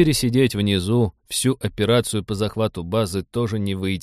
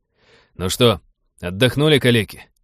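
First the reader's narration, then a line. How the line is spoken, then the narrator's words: Brisk bark. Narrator (Russian): бодро рявкнул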